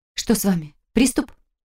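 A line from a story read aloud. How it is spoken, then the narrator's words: Frightened, agitated. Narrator (Russian): Мой голос прозвучал испуганно и, наверное, чересчур взволнованно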